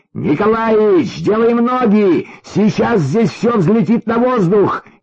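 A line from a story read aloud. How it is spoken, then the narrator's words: Shout again. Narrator (Russian): еще раз крикнул Витенька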